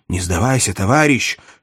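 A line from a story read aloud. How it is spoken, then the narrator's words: Whisper. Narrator (Russian): шепнул Каннингем меченому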